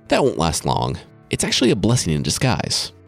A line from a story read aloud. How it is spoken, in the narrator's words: Gawain said